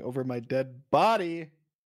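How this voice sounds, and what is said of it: Yelling. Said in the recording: “I'm yelling”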